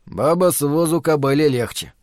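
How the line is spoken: Gloomy grumble. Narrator (Russian): мрачно пробурчал Ларри

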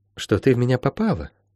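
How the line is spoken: Soft. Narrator (Russian): мягко сказала чародейка

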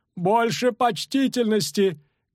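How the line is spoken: Shout in cracking voice. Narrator (Russian): крикнула ломким голосом дама в раброне

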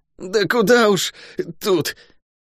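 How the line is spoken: Swearing through clenched teeth. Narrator (Russian): Щитоносец матерился сквозь зубы

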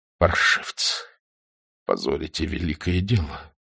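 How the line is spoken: Quiet. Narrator (Russian): тихо говорил Владимиров

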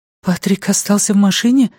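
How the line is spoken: Frightened question. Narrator (Russian): испуганно спросила Люми

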